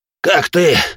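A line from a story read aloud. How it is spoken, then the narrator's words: Strained, breathless. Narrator (Russian): Унимая тяжелое дыхание, выдавил Явор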